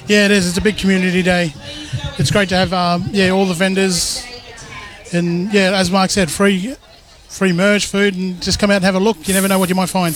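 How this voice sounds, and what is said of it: Sick, fading voice. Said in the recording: “I'm feeling a bit crook myself. My voice is going.”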